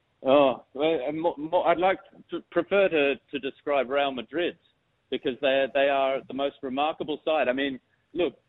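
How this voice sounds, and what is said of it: Posh English accent. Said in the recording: “the accent down there ... it's beautiful. Actually, very toffee.”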